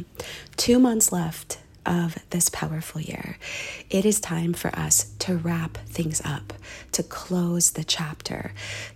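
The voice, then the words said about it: Voice sounds off from a cold. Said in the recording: “I have a little bit of a cold, so I might sound a little bit off”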